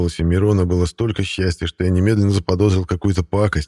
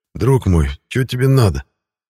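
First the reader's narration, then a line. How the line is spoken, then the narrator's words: Anguished groan. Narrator (Russian): Страдальчески простонал я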